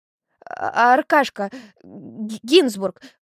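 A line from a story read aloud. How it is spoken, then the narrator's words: Stammering babble. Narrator (Russian): пролепетала, заикаясь, Улька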